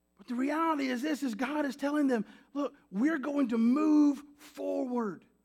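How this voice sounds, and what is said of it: Noticeable regional accent. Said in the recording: “I don't know if you've picked up my accent yet. ... I've already had to stop myself from saying y'all a few times.”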